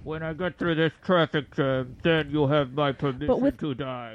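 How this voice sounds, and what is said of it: Convincing Welsh accent, muffled. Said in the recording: “With a Welsh accent this time ... the most convincing Welsh accent through a Bane mask.”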